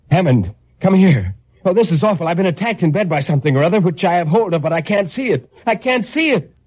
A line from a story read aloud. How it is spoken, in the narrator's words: I shouted to him